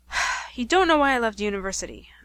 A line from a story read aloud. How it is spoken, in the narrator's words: sighed